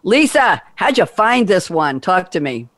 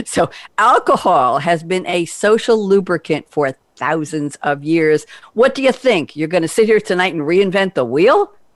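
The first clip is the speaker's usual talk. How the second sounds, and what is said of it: Light put-on New York accent. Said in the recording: “I gave it a little New York accent there.”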